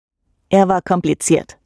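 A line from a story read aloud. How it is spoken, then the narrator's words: Dry reply. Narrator (German): erwiderte trocken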